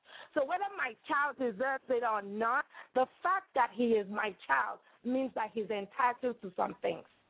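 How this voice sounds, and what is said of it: Nigerian accent. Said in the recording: “I hear a beautiful accent. Where do you originate? ... Nigeria. West Africa.”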